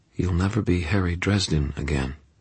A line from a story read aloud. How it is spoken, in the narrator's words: something inside me said in a calm tone